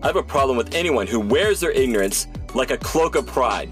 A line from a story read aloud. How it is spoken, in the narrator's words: snarled Cyber Gauntlet